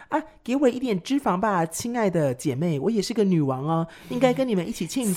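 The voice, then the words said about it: Tiny small character voice. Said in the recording (Chinese): “小小的声音”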